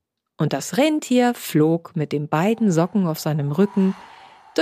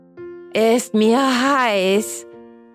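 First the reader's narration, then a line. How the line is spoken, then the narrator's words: Groggy panting from heat. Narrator (German): keuchte, der von der aufsteigenden Hitze aufwachte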